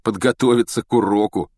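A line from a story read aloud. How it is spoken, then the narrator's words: Wry grunt. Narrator (Russian): хмыкнул ему вслед Рон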